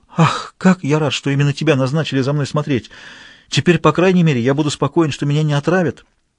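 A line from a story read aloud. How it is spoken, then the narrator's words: Exclaimed. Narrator (Russian): бедный Граляр воскликнул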